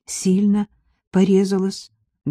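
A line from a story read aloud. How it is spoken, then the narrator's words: Trembling question. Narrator (Russian): дрожащим голосом спросила Мария Гавриловна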